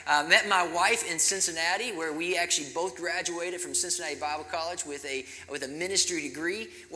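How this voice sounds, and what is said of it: Southern American accent. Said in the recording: “I originally grew up in Kentucky, so if you can identify a sweet southern accent, that's where it's from”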